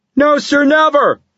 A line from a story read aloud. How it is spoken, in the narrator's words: replied the soldier in a loud voice